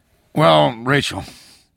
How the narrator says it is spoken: Ernie said, sighing tiredly

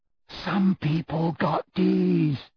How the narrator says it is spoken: Malfoy said in a carrying whisper

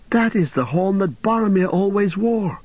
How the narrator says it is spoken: cried Pippin

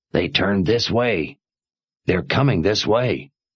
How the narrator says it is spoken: he whispered to the others

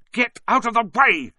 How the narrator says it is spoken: snapped Ron

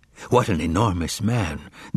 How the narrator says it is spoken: they whispered

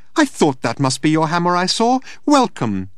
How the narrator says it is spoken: she chirped

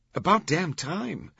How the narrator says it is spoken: Vittoria choked

